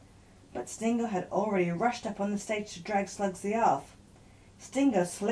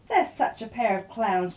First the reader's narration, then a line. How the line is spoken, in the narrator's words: chuckled Aunt Tulip in delight